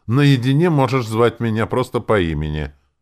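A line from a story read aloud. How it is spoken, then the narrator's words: Snort. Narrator (Russian): хмыкнул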